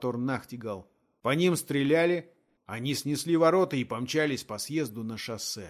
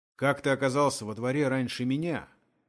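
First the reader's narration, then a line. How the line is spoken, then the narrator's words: Stern question. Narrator (Russian): строго спросил Том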